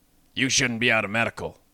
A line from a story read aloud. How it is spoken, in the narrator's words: grumbled